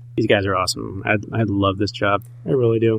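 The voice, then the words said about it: Emotional, choked-up voice. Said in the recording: “I'm a little choked up.”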